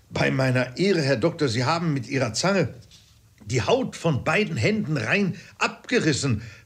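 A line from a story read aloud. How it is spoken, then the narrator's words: Called out. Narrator (German): rief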